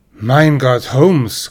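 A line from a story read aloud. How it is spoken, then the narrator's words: Indignant exclamation. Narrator (German): rief ich empört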